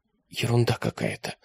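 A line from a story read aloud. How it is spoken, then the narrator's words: Whisper. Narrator (Russian): прошептала Алиса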